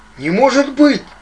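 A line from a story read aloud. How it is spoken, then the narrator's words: Exclaimed. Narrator (Russian): воскликнул Лик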